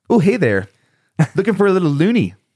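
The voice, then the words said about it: Put-on Canadian accent. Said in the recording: “your best Canadian accent? ... This is my Canadian accent.”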